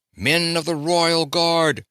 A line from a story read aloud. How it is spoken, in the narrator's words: he raised his voice to a volume audible not only to his own men, but also to all the enemy